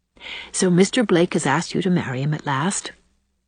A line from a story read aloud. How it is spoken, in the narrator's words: said Anne calmly